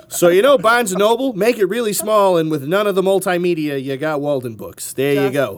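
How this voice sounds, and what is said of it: Muddled put-on Massachusetts accent. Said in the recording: “there was a Massachusetts accent for that ... my muddled accent”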